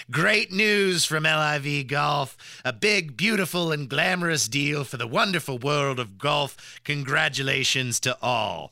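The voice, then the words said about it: Good Donald Trump impression. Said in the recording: “that was a pretty good Trump impression. I'll give you points for that one. That's way better than mine.”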